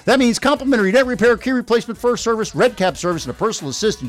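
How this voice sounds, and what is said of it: Very fast rushed speech. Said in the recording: “I said that fast”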